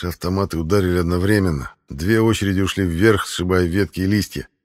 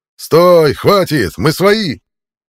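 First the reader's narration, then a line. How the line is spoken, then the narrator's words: Forest-filling yell. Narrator (Russian): заорал кайтерит на весь лес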